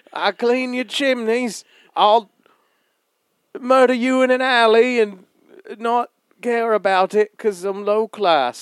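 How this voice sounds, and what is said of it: Put-on Cockney accent. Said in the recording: “Cockney's easy. All right, I do an accent for you ... That's every Cockney I've ever heard.”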